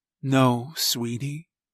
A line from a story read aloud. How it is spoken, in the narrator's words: said softly